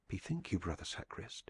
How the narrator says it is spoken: he whispered

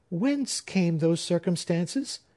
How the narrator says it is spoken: exclaimed Phoebe

